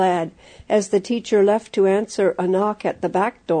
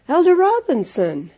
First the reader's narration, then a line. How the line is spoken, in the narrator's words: exclaimed the surprised teacher